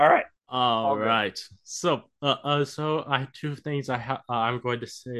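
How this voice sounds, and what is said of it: Usual voice. Nothing is said of it.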